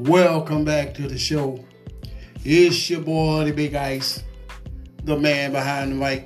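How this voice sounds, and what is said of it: Usual voice. Nothing is said of it.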